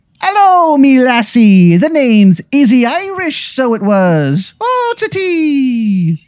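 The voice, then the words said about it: Bad put-on Irish accent. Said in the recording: “a horrendous accent. It's almost like he can't do the accent, even though it's part of his heritage.”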